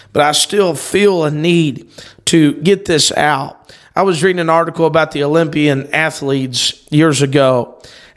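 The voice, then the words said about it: Rough, hoarse voice. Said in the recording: “I know my voice is rough here today... 6 nights of preaching, I'm a little hoarse.”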